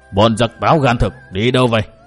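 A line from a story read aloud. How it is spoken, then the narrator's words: Shouted question. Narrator (Vietnamese): có tiếng người quát hỏi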